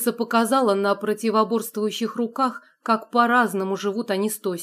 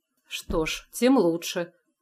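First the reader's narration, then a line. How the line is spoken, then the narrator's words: Muttered. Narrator (Russian): пробормотал Илья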